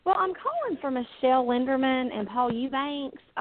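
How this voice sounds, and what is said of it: Southern US accent. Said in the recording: “I love your southern accent.”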